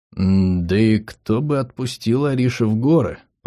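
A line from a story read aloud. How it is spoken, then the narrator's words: Muttered. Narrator (Russian): пробормотал я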